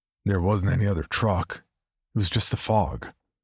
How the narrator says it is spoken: said another man

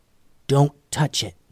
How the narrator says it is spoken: whispered Lucy

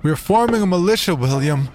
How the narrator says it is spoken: George shouted at my back

